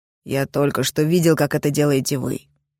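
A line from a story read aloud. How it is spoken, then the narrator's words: Calm retort. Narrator (Russian): спокойно парировал Кроу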